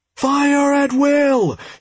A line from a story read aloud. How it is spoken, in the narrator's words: shouted Lepteon, interrupting the monster